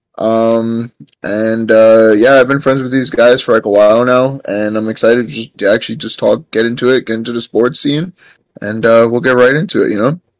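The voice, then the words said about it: New York accent. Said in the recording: “I'm from New York, as you can see from the accent.”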